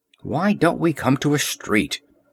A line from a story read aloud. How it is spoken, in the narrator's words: grumbled Valeria